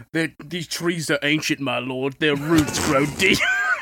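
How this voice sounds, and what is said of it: Orc character voice. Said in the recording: “What kind of accent does that? Is that for a wizard? ... That was me being the orc. ... I thought that was the wizard accent. ... No, ... the orc.”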